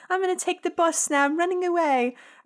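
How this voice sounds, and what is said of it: Slight put-on British accent. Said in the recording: “She has a little British accent.”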